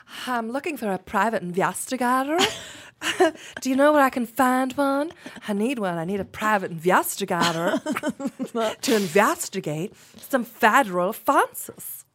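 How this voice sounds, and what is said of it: Put-on accent in a character voice. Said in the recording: “convoluted as fuck, just like that accent ... she sounded fun, though ... She sounded like a good time.”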